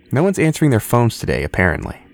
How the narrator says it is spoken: Henry said

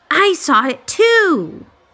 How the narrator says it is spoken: Eddie shouted

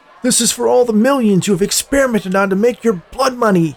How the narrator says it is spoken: shouted at Forrest

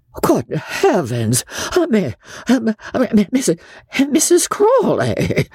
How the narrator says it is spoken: gasped Joss

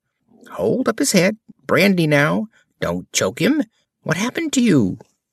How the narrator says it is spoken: Last came a little, feeble, squeaking voice

